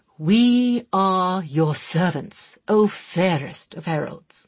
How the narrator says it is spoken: he intoned, sounding a great deal like an overacting player in some truly awful romantic drama

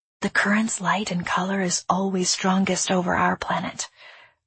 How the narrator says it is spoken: I said in a low voice

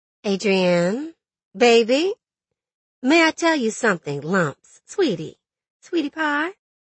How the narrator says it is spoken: Ernestine said very sweetly

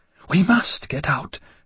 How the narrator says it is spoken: she whispered

